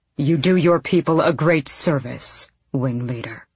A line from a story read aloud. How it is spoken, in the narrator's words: the king said, his voice like granite